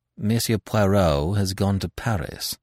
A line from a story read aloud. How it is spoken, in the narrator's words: I replied coldly